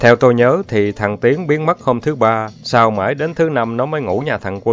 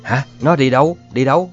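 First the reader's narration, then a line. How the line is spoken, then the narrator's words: Trembling voice, startled. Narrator (Vietnamese): tôi cất giọng run run hỏi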